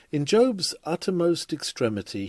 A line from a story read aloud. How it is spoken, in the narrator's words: he cried after the Lord